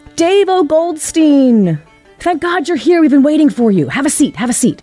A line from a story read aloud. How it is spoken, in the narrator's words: he would yell out from the stage